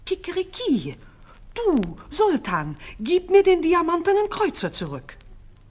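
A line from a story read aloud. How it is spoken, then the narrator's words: Rooster crying out again. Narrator (German): das Hähnchen ... schrie abermals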